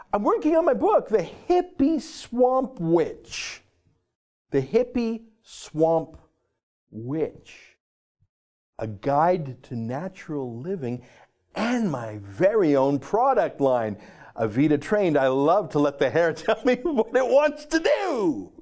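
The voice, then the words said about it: Funny put-on reading voice. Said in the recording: “I'm probably going to read it in my funny voice”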